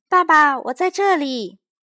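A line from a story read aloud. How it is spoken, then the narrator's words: Child's loud shout. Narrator (Chinese): 小东尼一进门就大声喊道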